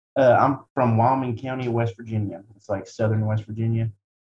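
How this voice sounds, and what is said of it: Southern West Virginia accent. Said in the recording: “I'm always going to have quite an accent ... just your accent alone”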